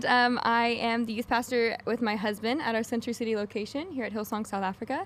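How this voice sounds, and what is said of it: American accent. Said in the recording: “I'm American ... they don't expect to hear my accent”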